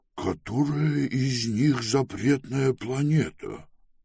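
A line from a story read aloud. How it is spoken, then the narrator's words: Quiet question. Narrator (Russian): негромко спросил Пилород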